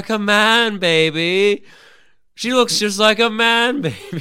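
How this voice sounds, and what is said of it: Austin Powers character impression, loud. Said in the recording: “a great impression of ... Austin Powers ... Are you screaming?”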